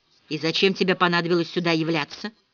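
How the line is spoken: Icy question. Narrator (Russian): ледяным тоном спросила

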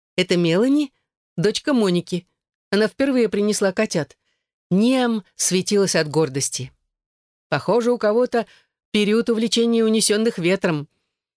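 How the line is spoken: Laughing. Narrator (Russian): засмеялась Эшлинг

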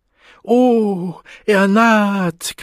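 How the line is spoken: Shriek. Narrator (German): kreischte Marlene Dieterding

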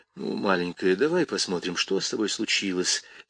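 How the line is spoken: Soft offer. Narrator (Russian): тихо предложил он

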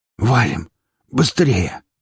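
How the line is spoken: Hoarse rasp. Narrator (Russian): прохрипел

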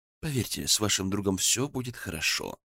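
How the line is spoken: Soft. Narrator (Russian): мягко сказал

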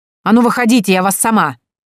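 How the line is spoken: Aggressive bark. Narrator (Russian): уже не пытаясь замаскировать агрессивный настрой, рявкнула

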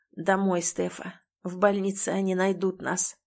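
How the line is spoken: Hoarse voice. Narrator (Russian): хрипло говорит Тим

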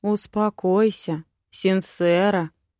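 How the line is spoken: Soft gentle male voice. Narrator (Russian): Мягкий, ласковый мужской голос

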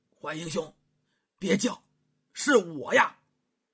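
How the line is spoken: Low hushed voice. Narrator (Chinese): 这位青衣之人呢说话了，压低声音

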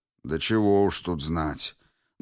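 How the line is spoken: Dull muffled voice. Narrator (Russian): Глухо проговорил комиссар

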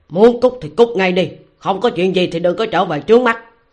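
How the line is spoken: Roaring. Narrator (Vietnamese): gầm lên

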